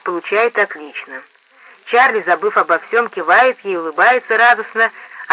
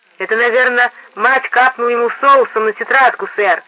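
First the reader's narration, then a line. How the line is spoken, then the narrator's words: Joyful chiming in. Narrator (Russian): радостно подхватывает Фейни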